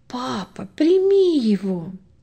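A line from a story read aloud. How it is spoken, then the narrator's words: Tender whisper. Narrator (Russian): ласково шепнула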